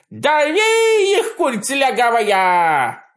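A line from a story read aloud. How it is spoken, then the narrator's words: Wild commanding yell. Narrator (Russian): вопил гражданин Груздев, возомнив себя то ли адмиралом Нельсоном, то ли маршалом Жуковым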